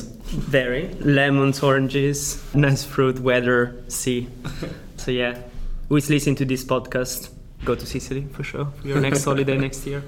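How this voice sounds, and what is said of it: Italian accent. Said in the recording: “As you can probably guess by the accent throughout the interviewing, I am Italian. I'm actually from Sicily”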